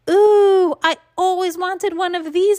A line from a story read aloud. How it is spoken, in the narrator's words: I hollered real thrilled